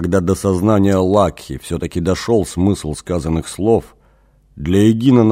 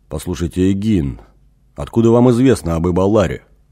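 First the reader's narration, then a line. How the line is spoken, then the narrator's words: Stern question. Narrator (Russian): строго спросил Лакха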